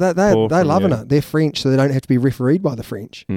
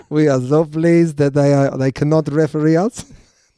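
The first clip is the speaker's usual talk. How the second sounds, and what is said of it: Poor put-on French accent. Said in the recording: “That is a terrible French accent ... Yeah, it's poor”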